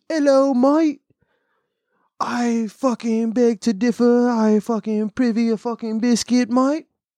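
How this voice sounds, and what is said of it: Mock British accent. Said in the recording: “nothing sounds funnier than a fucking British accent.”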